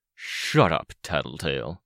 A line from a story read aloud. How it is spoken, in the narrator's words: Midas growled